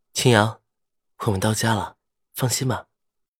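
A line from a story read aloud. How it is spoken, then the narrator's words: Relieved, light. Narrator (Chinese): 夏医生的声音几分轻松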